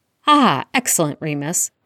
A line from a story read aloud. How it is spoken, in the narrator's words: Arthur exclaimed, smiling